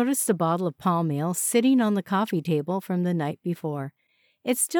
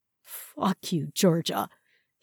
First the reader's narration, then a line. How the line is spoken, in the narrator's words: sneered